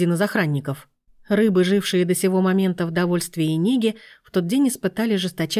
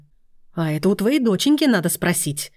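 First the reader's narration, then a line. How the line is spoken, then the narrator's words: Yelling husband. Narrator (Russian): орал на нее супруг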